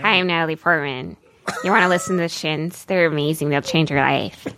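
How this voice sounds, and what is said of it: Imitates another person's voice. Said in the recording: “What is your Natalie Portman impression sound?”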